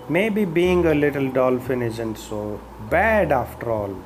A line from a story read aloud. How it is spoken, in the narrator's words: he said